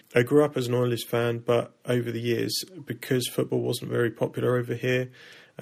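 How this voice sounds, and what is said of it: British-influenced accent. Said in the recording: “you can probably hear from my accent. I spent a lot of time in the UK after my family moved there when I was a child”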